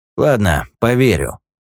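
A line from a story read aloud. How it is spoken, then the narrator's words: Snort. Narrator (Russian): хмыкнул Юджин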